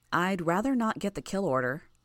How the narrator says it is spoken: I said

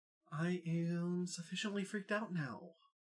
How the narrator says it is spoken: Avery whispered

